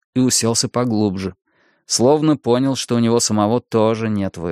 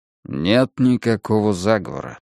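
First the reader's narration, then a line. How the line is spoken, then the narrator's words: Quiet. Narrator (Russian): сказал он тихо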